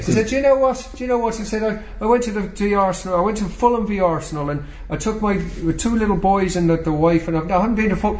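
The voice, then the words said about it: Put-on Irish accent. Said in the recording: “I'll do the Irish accent if I may.”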